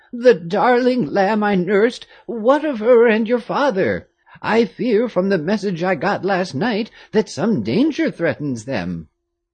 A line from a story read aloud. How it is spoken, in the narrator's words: Louise Moulin exclaimed